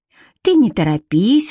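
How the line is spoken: Smiling, laughing. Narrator (Russian): улыбнулась Марина и рассмеялась

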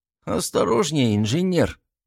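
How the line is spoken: Disapproving grumble. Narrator (Russian): проворчал Гвидо с осуждением в голосе

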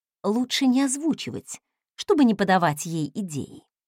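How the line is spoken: Conspiratorial whisper. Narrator (Russian): заговорщицки прошептала я

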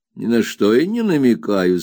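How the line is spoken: Plain. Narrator (Russian): сказала Пегати

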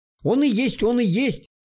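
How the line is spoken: Confused whimpering. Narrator (Russian): сбивчиво заскулил тукан

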